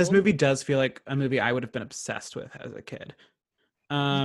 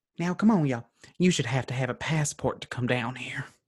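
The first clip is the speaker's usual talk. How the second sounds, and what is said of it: Put-on Southern US accent. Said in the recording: “Let me get my accent ... That's not the right accent. That's more like Tennessee or something.”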